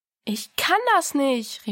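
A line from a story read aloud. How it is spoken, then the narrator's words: Called out. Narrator (German): rief Diana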